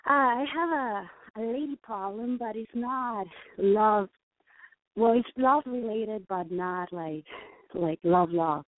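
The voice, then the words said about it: Mexican accent. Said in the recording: “I detect an accent. ... Mexican.”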